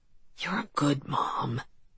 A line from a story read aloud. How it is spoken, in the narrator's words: he whispered into my ear